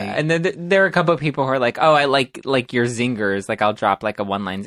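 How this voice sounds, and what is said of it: Valley Girl voice. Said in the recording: “my Valley Girl voice. I was like, I didn't even realize I had a Valley Girl voice.”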